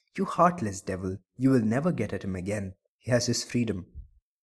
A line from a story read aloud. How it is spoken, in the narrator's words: The perfumer ... muttering